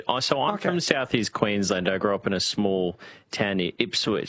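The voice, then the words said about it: Broad rural Australian accent. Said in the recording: “So I've got a bit of a bogan twang to me”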